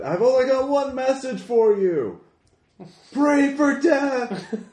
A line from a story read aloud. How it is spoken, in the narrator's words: the beggar yells out